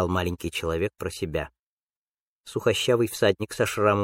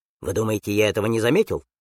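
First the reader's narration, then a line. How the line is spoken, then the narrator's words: Snapping retort. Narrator (Russian): огрызнулся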